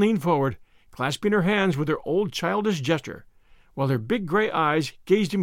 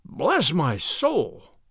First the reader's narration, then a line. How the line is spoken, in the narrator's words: exclaimed Mr